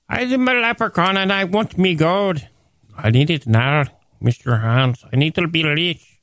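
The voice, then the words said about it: Leprechaun voice, Irish-like accent. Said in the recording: “give me a leprechaun voice ... like Apu and Irish Apu”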